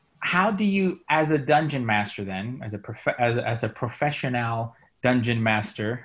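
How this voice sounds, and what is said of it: Slight put-on accent. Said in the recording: “I was trying to put a little accent there.”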